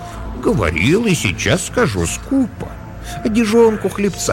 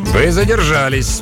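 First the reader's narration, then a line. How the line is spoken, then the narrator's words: Grumpy announcement. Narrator (Russian): сварливым тоном объявил морец Ван Хемиард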